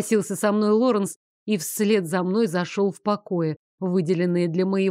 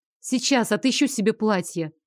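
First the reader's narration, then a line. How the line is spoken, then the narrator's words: Plain. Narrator (Russian): сказала я Лоренсу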